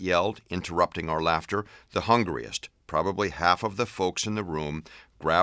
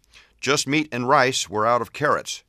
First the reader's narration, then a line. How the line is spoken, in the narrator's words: bellowed